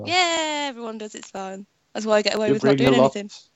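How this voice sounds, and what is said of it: Female voice with British accent. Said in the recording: “I talk in a female and British accent ... I love your little British accent.”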